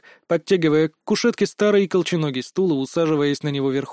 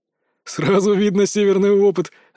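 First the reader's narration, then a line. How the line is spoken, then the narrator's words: Laughing. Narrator (Russian): рассмеялся Гючон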